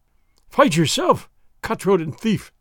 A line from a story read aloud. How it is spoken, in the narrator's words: the exasperated sergeant cried